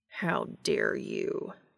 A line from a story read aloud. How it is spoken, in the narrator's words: Cass growled